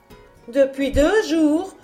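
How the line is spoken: Mother exclaiming. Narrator (French): s'écria la mère

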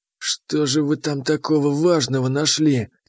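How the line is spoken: Old lizard's quiet grumble. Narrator (Russian): тихо проворчал старый ящер

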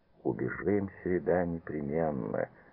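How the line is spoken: Muffled reply. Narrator (Russian): глухо откликнулся Павел

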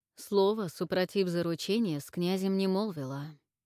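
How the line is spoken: Calm. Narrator (Russian): сказал Яромир спокойно

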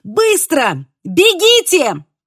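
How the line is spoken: Shouted. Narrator (Russian): крикнула

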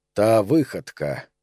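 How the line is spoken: Quiet. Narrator (Russian): негромко начал шеф

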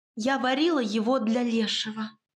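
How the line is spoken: Breathy mouthed whisper. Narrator (Russian): одними губами выдохнула она

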